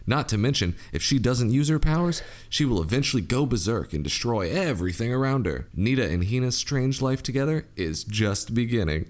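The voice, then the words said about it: Cheesy radio announcer voice. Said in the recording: “Practicing my like cheesy radio voice.”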